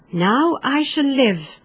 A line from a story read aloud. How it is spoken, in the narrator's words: cried the tree, joyfully